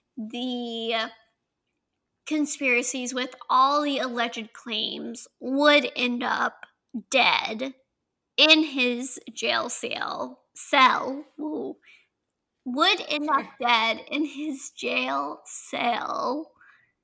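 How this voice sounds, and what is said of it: Southern accent on certain words. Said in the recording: “that's the main word that my southern accent comes out on. I like can't really say it. Cell.”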